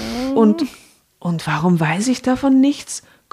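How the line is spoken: Stunned gasp. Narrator (German): keuchte Tim fassungslos

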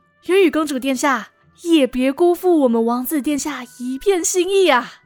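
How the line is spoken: Smiling. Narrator (Chinese): 瑞刚笑盈盈地

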